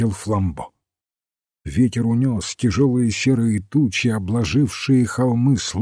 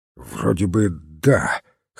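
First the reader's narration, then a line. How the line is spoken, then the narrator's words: Hoarse. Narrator (Russian): хрипло ответил сыщик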